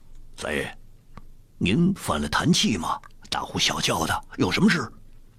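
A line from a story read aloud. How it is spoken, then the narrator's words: Cold question. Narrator (Chinese): 一个守门的军士冷冷问道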